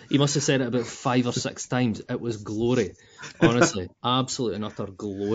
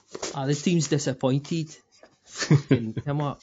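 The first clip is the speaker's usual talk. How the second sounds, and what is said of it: Imitates another person's accent. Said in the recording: “That fucking accent, man.”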